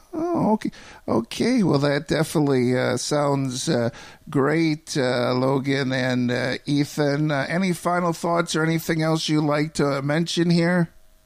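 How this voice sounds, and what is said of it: Chicago accent. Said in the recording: “I recognize your accent. Are you from Chicago? ... Yeah, it's that evident, is it?”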